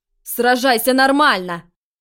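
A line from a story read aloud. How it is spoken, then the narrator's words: Irritated bark. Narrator (Russian): рявкнул заклинатель из Ордена Феникса, раздраженный тем, что противник постоянно уворачивается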